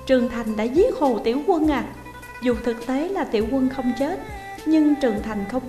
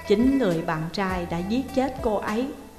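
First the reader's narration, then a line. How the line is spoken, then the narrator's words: Smiling. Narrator (Vietnamese): Điền Phong tiếp tục mỉm cười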